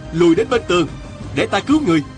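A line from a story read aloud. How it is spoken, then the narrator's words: Shouting. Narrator (Vietnamese): Diên Thừa Chí la lên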